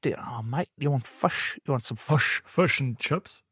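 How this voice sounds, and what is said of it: Put-on New Zealand accent. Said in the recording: “I find doing a Kiwi accent really difficult. ... Whereas the Kiwi seem to, it's the same, but not.”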